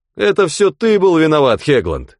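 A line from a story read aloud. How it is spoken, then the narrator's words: Shouted. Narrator (Russian): крикнул Хигби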